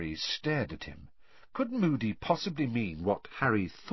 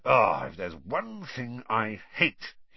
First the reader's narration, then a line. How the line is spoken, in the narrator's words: he muttered, more to himself than Harry